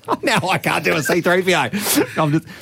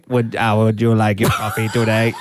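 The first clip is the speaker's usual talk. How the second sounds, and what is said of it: Monotone robot voice. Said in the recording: “It'll be all monotone for sure ... Oh, monotone.”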